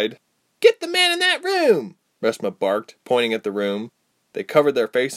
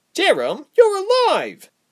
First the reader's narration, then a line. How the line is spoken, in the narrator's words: Reshma cried